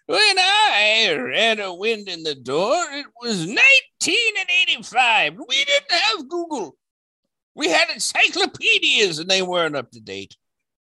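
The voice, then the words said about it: Old man voice. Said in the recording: “talking in his old man voice.”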